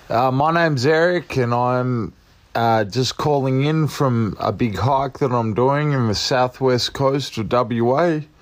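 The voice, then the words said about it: Australian accent. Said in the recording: “He's in Western Australia, I believe. You'll hear the accent”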